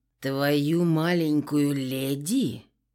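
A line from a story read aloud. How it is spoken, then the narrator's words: Growled. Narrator (Russian): прорычал Кристиан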